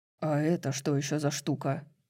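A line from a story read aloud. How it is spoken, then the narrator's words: Grumbling. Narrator (Russian): проворчал Хант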